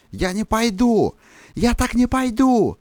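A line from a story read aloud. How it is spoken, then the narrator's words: Shouting through megaphone. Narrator (Russian): я смоло кричал ему в рупор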